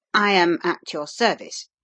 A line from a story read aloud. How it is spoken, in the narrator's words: he answered a little stiffly